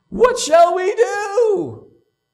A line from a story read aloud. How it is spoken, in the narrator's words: many in the crowd were so convicted of their guilt that they interrupted Peter's sermon and cried out